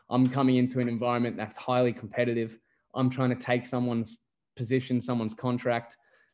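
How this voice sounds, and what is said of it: Australian accent. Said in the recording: “I'm English by birth, but I sound Australian, obviously.”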